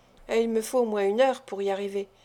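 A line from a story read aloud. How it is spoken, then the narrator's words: Murmuring. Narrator (French): murmura Nancy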